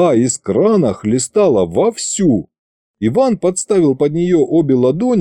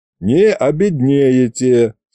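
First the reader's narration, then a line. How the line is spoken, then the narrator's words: Chuckling. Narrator (Russian): снова хохотнул Кузьмич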